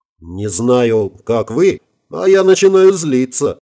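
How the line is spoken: Indignant voice. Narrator (Russian): возмущенный голос Орловой

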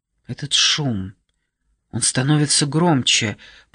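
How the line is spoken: Whisper. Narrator (Russian): прошептала Келли

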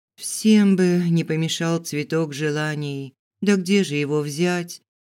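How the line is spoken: Sighing. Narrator (Russian): Вздохнула

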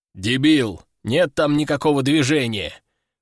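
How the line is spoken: Man's rough growl. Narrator (Russian): рыкнул мужик

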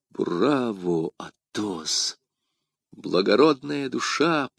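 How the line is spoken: Whisper. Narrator (Russian): прошептал Д'Артаньян

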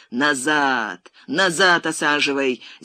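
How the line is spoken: Loud booming yell. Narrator (Russian): зычным голосом заорал он на водителя

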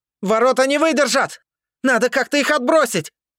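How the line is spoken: Shouting. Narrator (Russian): крикнул Сашка

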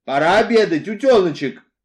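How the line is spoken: Shouted through keyhole. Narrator (Russian): прокричал мистер Ривз в замочную скважину

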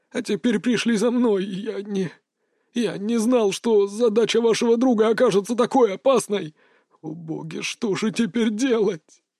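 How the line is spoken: Sobbing. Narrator (Russian): зашел с рыданиями

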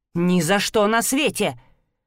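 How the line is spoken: Sharp objection. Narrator (Russian): резко возразил дядя Джон

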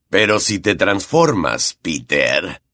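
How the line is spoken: Growled. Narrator (Spanish): gruñó Black

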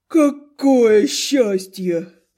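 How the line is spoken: Sleepy snort. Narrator (Russian): сонно фыркнул Зогал

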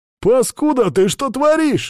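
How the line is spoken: Shouted. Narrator (Russian): закричал другой

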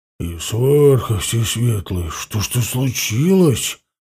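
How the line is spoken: Muttered, big fellow. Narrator (Russian): пробормотал детина

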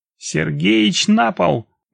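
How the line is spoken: Shouted. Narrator (Russian): выкрикнула я

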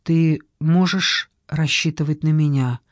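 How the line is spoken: Quiet objection. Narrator (Russian): тихо возразил

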